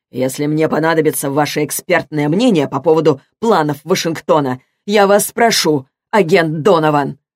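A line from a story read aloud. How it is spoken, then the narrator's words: Bark. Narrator (Russian): рявкнул он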